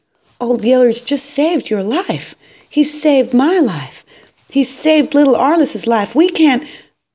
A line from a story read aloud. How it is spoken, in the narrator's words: cried out